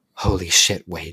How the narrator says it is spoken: she muttered

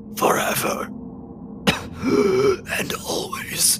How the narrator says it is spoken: the body kind of spasms a little bit, back arching, and it wheezes the words

